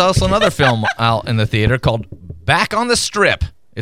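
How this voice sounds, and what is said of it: Usual voice. Nothing is said of it.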